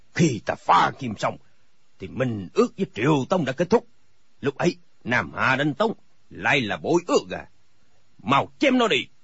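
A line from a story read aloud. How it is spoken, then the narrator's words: Furious shout. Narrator (Vietnamese): Thành các tư hãn cả giận quát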